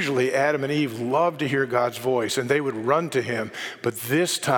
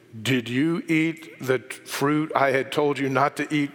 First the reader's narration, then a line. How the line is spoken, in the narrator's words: God asked them